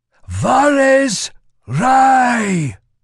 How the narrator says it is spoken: A shout went up, quickly taken up and carried on by a dozen other voices

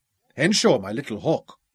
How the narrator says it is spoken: he replied thickly

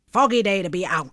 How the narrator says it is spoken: snapped Sani Langtand from the corner of her rat-trap mouth

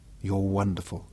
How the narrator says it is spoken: Gary murmured

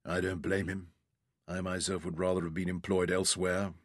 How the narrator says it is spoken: murmured

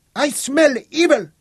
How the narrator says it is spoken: shrieked the witch

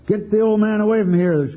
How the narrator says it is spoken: screamed the captain through the smoke

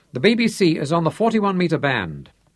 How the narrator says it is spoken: Santaine told him sharply

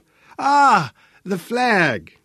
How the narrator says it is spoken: Sebastian exclaimed with relief

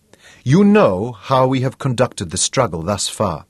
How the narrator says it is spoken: he said

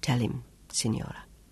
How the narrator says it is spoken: whispered

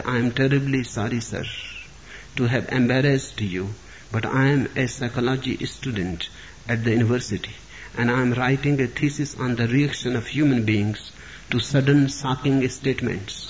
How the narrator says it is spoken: In a quiet voice, he said

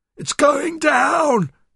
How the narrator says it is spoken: shrieked

